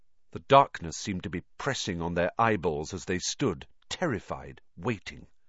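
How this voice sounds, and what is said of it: Usual voice. Nothing is said of it.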